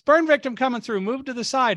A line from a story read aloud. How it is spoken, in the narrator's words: we heard somebody yell from above us